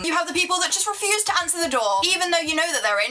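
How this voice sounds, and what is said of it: Female British accent. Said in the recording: “a British accent, especially a female's British accent.”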